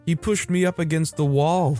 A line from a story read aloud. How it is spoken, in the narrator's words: said amidst her sobs